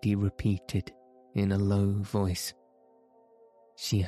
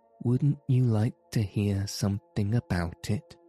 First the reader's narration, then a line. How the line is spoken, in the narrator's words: asked Mr